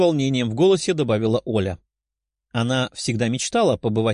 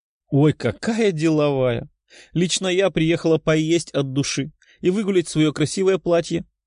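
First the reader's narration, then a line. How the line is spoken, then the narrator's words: Giggling. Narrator (Russian): хихикнула Лиза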